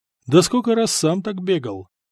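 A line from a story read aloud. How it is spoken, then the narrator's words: Amused snort. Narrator (Russian): хмыкнул Надир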